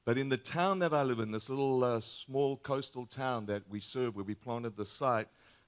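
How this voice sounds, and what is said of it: Australian accent. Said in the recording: “my accent is a little different. We're from Australia.”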